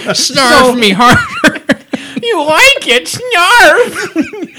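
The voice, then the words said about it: Snarf impression, Thundercats character. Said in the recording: “I do a good snarf impression... I almost thought it was your real voice.”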